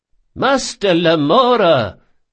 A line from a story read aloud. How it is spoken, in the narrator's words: cried Ibelius